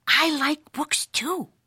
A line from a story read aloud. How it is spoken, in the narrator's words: whispered Leonora Lapsitter, the librarian, from behind the bookcase